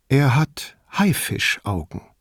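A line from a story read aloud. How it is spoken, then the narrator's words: Plain. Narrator (German): sagte Paula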